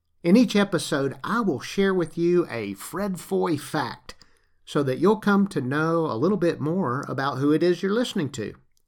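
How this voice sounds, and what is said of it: Faint Southern US accent. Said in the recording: “you might notice remnants of a Southern accent and a few colloquialisms here and there”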